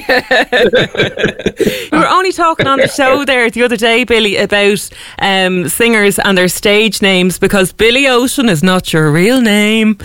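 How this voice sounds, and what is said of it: Irish accent. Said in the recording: “I love the Irish accent. ... I'll ham it up a bit more for you today.”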